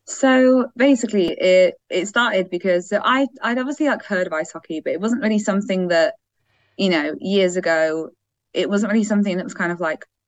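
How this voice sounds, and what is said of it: English accent. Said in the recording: “making an assumption based on the accent from England”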